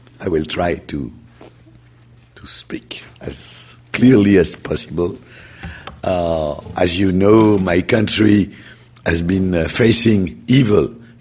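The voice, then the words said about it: Hoarse, nearly lost voice. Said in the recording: “my voice is lost”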